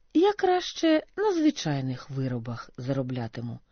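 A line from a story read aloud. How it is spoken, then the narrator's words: Calm reply. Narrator (Ukrainian): спокійно відповів Григорій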